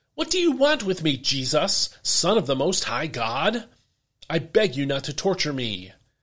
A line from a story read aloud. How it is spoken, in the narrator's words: he cried out ... shouting in a loud voice